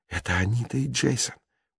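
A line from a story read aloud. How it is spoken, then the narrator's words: Dazed whisper. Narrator (Russian): прошептала Джулия, словно в трансе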